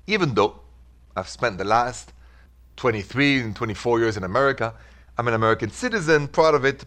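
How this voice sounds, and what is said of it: French accent. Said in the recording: “the accent, if it's the first time you're joining The Rendezvous, your humble servant is from Paris ... the accent, what can I say? It comes, it stays with you after all these years”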